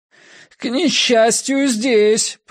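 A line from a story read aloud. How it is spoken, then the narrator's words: Shouted reply. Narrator (Russian): прокричал я в ответ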